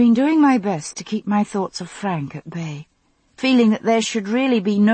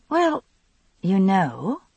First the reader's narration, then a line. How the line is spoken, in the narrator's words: I said slowly